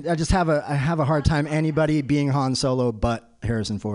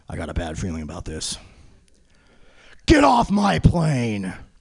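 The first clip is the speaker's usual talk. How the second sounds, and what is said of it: Poor imitation of an actor's voice. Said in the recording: “my horrible Harrison Ford impression”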